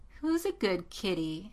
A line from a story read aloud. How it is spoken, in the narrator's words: She said, in a sweet, mocking tone